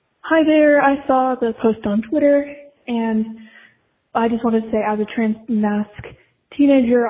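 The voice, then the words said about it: Slightly out of breath, excited. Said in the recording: “I'm a little out of breath... I'm a little excited”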